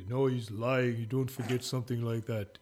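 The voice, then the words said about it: Impression of another person. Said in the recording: “That's a great impression.”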